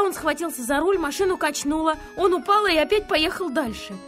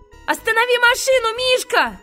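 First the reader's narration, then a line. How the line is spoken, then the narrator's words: Shouting. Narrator (Russian): закричал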